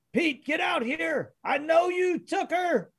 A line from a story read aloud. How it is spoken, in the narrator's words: men yelling at each other, one man says